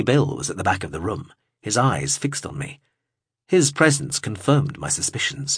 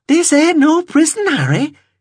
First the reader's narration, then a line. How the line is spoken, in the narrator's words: she replied brightly